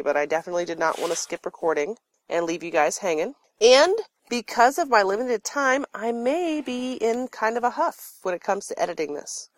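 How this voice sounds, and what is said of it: Scratchy, congested voice from cold. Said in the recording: “audio quality that may not be up to par ... I kind of got a cold ... I get like the worst head cold ever ... my voice is kind of scritchy and scratchy”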